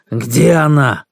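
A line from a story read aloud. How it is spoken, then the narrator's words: Strained, forced out. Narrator (Russian): Тот тоже с трудом выдавил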